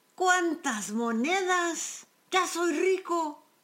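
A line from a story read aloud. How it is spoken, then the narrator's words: Lazy man, joyful exclaim. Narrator (Spanish): El haragán con alegría exclamó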